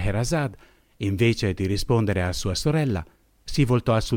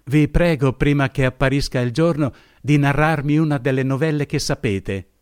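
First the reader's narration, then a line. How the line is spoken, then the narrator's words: Exclaiming. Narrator (Italian): esclamò essa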